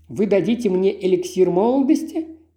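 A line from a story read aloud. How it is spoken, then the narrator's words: Countess's ironic laugh. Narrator (Russian): иронически рассмеялась графиня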